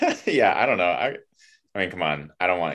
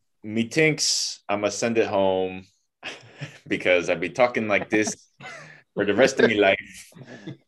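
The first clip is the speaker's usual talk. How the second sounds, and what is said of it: Imitates another person's accent. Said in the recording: “Nailed the accent.”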